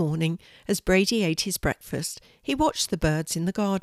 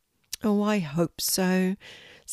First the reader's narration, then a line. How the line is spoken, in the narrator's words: sighed